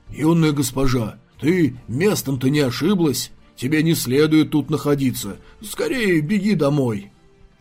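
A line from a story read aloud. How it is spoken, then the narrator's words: Muffled voice. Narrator (Russian): Цин Бао приглушенным голосом проговорил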